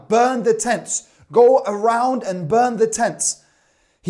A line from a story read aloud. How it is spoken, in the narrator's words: the women and children began to scream and shout